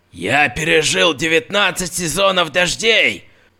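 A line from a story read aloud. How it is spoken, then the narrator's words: Bark. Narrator (Russian): гаркнул он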